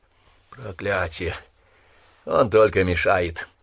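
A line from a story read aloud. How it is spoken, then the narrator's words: Plague muttering. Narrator (Russian): пробормотала чума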